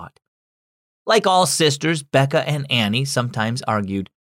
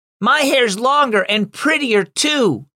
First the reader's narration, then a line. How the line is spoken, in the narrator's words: Annie yelled